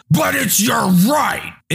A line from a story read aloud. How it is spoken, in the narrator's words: he screams in my face, covering me with spittle